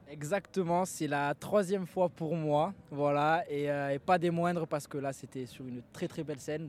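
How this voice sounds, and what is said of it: Southern French Marseille accent. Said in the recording (French): “D'où cet accent ? ... De Martigues, de Marseille, forcément. Donc c'est le chant des cigales un peu.”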